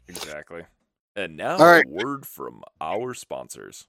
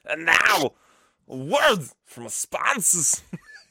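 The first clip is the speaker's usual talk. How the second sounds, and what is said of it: Imitates another person's voice. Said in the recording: “That's like the worst impression ever that I've ever done of him.”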